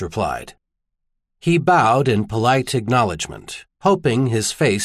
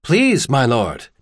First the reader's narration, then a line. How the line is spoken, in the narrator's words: Tanner smiled quickly